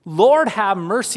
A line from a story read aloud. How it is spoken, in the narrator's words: He cried out with an intensity